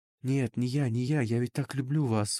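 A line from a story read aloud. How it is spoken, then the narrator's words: Breathed out. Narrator (Russian): выдохнул Ида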